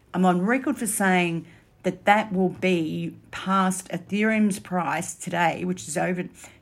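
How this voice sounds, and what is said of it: Speaker's own noticeable accent. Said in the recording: “some of my listeners don't understand my accent.”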